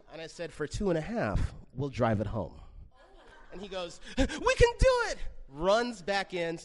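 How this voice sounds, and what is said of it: Usual voice. Nothing is said of it.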